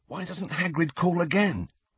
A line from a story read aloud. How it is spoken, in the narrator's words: he whispered